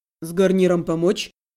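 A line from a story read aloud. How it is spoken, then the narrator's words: Calm question. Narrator (Russian): спокойно уточнил Андрей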